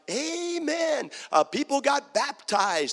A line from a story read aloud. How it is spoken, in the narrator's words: I was shouting